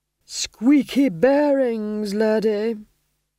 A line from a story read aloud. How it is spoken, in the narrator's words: groaned Vitola